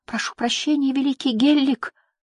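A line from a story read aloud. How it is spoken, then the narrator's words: Strained, old gnome. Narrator (Russian): выдавил морщинистый гном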